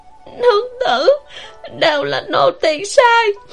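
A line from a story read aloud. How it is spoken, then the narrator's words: Choked-up sobbing voice. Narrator (Vietnamese): Vãn Lục nằm ở bên giường nghẹn ngào nói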